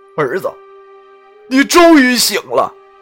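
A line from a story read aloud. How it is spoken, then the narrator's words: Emotional, crying. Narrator (Chinese): 我老爹激动的哭了，哭着说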